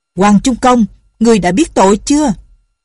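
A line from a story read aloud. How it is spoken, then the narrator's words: Harsh old man's voice. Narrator (Vietnamese): Giọng của lão già này vô cùng gay gắt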